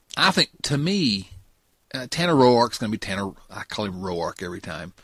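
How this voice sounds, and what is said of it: Virginia Southern accent. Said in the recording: “this ridiculous accent ... Moved back to Virginia, and it returned”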